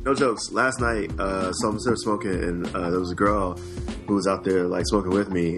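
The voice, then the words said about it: Hoarse voice. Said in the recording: “I actually smoked way too many cigarettes yesterday, and now I'm hoarse as shit.”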